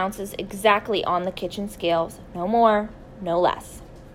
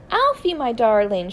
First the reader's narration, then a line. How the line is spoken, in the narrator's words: she cried out